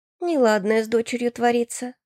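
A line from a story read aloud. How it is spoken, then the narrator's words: Sighing mother. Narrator (Russian): вздохнула мама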